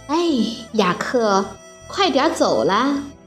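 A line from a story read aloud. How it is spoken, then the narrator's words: Sighing. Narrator (Chinese): 露露叹着气说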